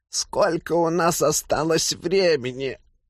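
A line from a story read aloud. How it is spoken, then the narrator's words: Husky question. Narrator (Russian): сипло спросил Хашт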